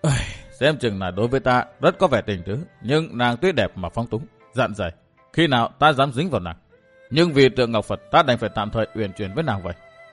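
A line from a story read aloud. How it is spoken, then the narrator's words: Sighing mutter. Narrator (Vietnamese): thở dài lẩm bẩm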